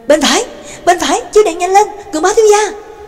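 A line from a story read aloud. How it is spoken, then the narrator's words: Urgent shout. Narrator (Vietnamese): Nhạc Dương đã lại kêu lên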